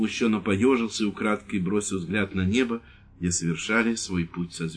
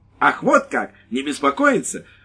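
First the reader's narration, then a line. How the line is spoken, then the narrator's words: Exclaimed. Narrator (Russian): воскликнула женщина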